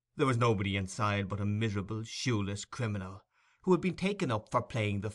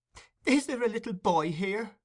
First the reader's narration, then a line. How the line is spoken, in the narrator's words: inquired Nancy with a preliminary sob